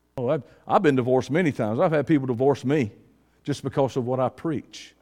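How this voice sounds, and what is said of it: Southern Georgia redneck accent. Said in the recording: “I had to get a redneck Southern Columbus, Georgia accent”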